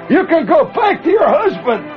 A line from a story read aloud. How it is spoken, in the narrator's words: this guy holler at this chick